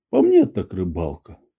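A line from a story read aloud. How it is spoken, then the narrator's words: Grumbled. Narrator (Russian): буркнул Максимов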